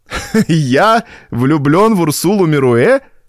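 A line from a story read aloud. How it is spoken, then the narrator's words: Loud laughter. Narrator (Russian): захохотал Дезире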